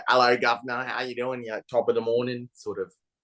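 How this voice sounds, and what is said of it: Exaggerated Cockney British accent. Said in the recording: “very Cockney British accent that Adele has ... That was atrocious as well ... my accent just then was better than ... was”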